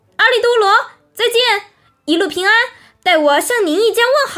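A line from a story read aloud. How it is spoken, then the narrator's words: Calling out from afar. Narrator (Chinese): 离岸远远的，对他救起来的朋友叫道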